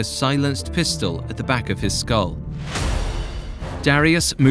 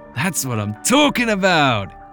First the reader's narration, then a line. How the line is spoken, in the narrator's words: exclaimed